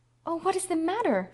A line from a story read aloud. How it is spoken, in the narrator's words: she cried anxiously